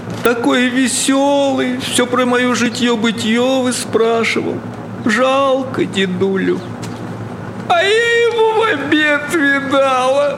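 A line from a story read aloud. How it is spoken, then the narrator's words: Wailing, sobbing. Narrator (Russian): причитая, всхлипывала повалих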